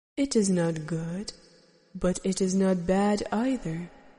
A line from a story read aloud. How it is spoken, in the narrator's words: the teacher said calmly